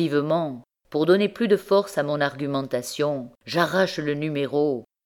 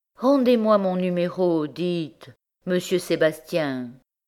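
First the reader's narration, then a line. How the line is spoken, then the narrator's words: Timid. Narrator (French): timidement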